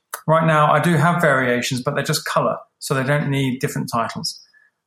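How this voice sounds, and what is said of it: Noticeable accent, sounds smart. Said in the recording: “sounds smarter than me already. He's got that accent going on. I'm always envious of people with those accents, man. You guys sound smart.”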